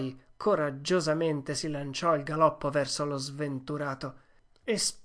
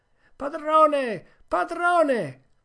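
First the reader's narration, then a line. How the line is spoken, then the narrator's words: Shouting at full lung. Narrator (Italian): Venerdì si mise anche lui a gridare con quanto fiato aveva in gola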